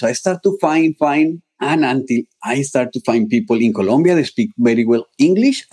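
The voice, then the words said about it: Non-native English accent. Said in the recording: “even you can feel that I have a still accent.”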